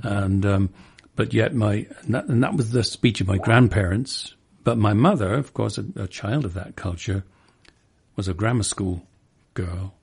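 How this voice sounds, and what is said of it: Hampshire rural English accent, rich vowels. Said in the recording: “I was brought up in Hampshire in southern England and with the rich vowels that you hear me doing now. So I was a Hampshire lad, a country boy, you know, British equivalent of a southern accent”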